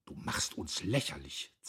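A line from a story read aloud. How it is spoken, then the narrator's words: Hiss. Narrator (German): zischte sie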